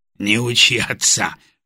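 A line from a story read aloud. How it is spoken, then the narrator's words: Snorting. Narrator (Russian): хмыкнул Володя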